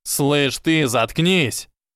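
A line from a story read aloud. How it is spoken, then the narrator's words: Thundering voice. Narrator (Russian): Прогремел мистер Крэб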